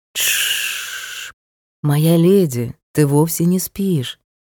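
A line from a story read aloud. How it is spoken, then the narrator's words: Soothing, gentle. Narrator (Russian): успокаивающе проговорил герцог, мягко обнимая меня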